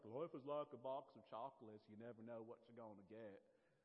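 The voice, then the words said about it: Nashville accent, imitating film character. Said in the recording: “That's actually my Nashville accent. That's not me doing much.”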